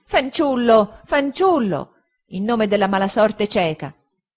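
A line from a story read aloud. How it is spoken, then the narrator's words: Impatient exclamation. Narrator (Italian): esclamò la signorina Mosché torcendosi con impazienza e agitandosi nell'angolo del parafuoco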